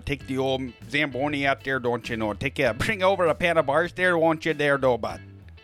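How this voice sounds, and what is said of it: Put-on Minnesota accent, drifting Irish. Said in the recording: “you get up north, you know, up there to, to Minnesota there, and uh, they start talking like that over there ... we went we went over to Ireland for just a second”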